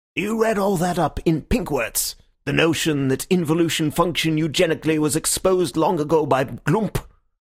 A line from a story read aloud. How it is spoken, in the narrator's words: I replied quite scornfully